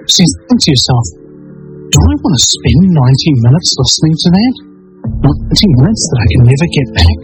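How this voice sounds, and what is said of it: New Zealand accent. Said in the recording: “Vinny Eastwood from New Zealand with an accent”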